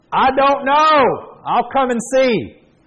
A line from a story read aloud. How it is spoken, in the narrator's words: The 94-year-old hollered back